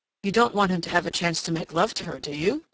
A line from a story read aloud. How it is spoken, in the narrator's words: said Ryder sharply